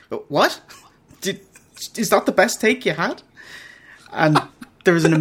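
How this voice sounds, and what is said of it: Usual voice. Nothing is said of it.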